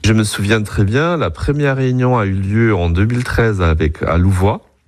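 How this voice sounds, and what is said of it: German accent speaking French. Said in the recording (French): “à travers mon accent, d'être allemand”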